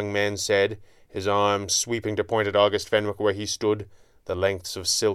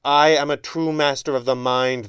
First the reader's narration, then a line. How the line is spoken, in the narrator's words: the younger man howled